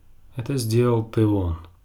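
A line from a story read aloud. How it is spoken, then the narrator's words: Gloomy reply. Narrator (Russian): мрачно ответил Бран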